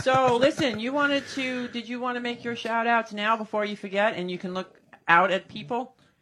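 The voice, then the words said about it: New York accent. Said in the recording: “you know with that New York. Accent. ... You got a New York accent? ... Yeah, I think I do.”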